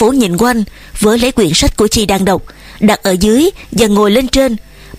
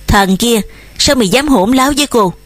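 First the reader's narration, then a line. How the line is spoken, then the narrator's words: Trembling woman. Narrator (Vietnamese): Chị sắm nguyệt run run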